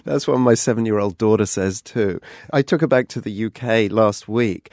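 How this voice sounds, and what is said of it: British accent. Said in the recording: “a man with an accent I am still trying to pin down after all these years ... a whole nation of people who spoke the same way that I do”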